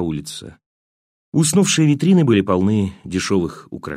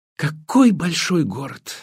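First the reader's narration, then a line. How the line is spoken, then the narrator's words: Exclaiming. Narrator (Russian): воскликнула она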